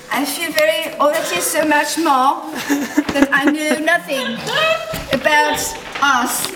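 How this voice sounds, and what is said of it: Put-on French accent. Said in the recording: “Try one more different accent, maybe a little French.”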